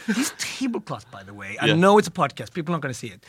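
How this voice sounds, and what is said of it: Ethiopian accent. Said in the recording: “this Ethiopian accent”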